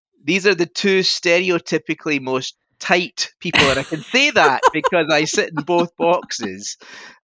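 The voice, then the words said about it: Scottish accent. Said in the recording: “you might tell from my voice I'm Scottish”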